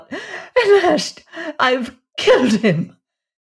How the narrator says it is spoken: she cried out

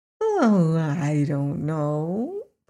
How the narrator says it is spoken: purred Eureka

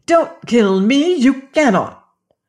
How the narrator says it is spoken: cried

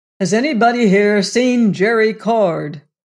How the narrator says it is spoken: queried Venters in a loud voice

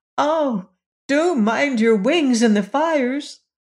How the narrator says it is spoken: George and Jane cried out together

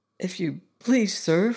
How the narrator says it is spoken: faltered Robert

